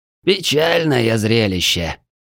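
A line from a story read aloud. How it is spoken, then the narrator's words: Heavy sigh, lamenting, from behind. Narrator (Russian): тяжело вздохнув, посетовал знакомый голос за спиной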